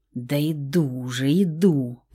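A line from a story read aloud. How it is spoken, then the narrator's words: Grumbling mutter. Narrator (Russian): пробурчала Стаська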